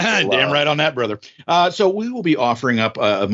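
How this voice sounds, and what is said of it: Usual voice. Nothing is said of it.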